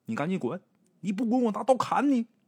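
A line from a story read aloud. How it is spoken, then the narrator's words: Shouting. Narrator (Chinese): 鬼友他母亲喊了几声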